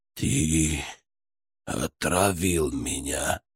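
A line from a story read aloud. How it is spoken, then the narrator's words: Weak, hateful hiss. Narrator (Russian): прошипел Мкрчан, пытаясь вложить в свой слабый голос всю свою ненависть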